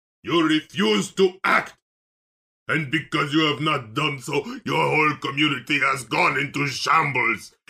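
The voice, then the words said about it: Put-on unidentified accent. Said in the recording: “I just made that up. I don't even know what accent that was.”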